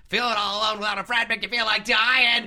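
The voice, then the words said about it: Imitates another person's voice. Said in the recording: “my Gilbert Gottfried impression got worse and worse as time went on.”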